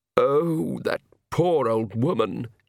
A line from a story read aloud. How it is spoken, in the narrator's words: he moaned